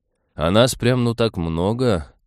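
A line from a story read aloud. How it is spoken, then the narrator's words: Wry snort. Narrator (Russian): хмыкнул Нейв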